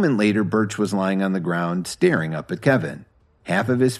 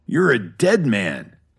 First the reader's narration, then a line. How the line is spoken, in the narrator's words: Birch growled